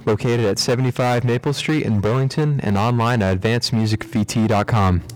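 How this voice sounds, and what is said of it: Polished radio announcer voice. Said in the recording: “radio voice ... That was nice.”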